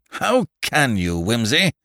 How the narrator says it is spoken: growled Parker reproachfully

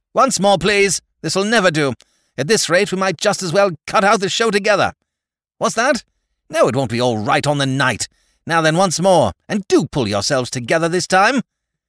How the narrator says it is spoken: snaps out

